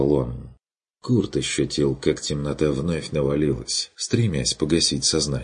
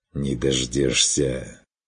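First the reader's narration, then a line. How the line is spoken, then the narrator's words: Hissing. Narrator (Russian): С шипением отозвался стриг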